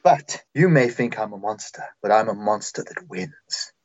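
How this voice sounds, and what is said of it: Character voice with put-on accent. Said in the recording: “I don't know what accent I have”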